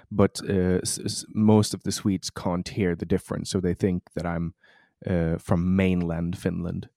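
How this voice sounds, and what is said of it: Slight Finnish-Swedish accent. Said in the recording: “I have this slight uh, Finnish to my accent. Is actually a an Åland Islander uh, accent”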